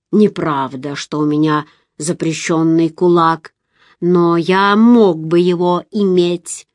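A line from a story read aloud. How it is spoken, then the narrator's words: Muffled hollow voice. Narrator (Russian): сказал глухим голосом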